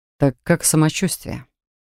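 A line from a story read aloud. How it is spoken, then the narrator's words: Tired smirk. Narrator (Russian): Устало усмехнулся мастер Саган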